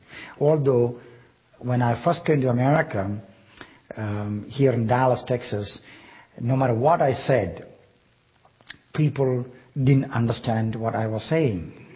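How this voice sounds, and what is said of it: Non-native English accent. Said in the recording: “by hearing my accent, you know English is not my native language.”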